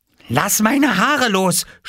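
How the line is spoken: Shouted. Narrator (German): schrie Jule

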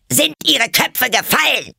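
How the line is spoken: Queen shouting angrily. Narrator (German): schrie die Königin sie an

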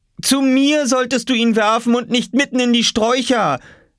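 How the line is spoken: Calling up from below. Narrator (German): rief Mama von unten

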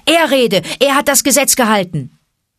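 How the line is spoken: Thundering elder's voice. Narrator (German): übertönte die donnernde Stimme des Ältesten des Rudels das Gewirr

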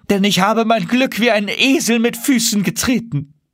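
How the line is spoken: Exclaimed. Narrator (German): rief er aus

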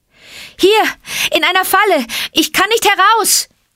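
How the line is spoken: Called out. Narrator (German): rief Mowgli

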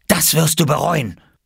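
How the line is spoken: Hissing. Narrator (German): zischte

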